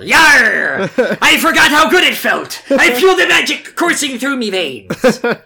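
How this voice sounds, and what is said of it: Pirate accent character voice. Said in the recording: “with the accent you're doing, I'm kind of picturing like Less of a woman and more Captain Barbossa ... she became a pirate”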